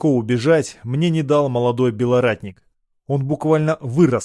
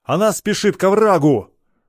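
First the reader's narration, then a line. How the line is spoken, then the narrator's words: Shouting while running. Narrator (Russian): уже на бегу крикнул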